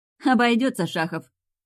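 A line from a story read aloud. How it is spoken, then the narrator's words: Short laugh. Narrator (Russian): хохотнула Женька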